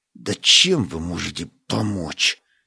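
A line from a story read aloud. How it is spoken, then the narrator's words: Muttered through teeth. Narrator (Russian): Сквозь зубы пробормотал Стас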